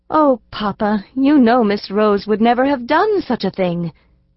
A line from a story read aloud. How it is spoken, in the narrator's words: exclaimed the little girl